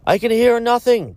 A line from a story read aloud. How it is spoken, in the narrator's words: cried another